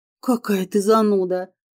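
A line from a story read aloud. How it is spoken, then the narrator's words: Snort. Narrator (Russian): фыркнула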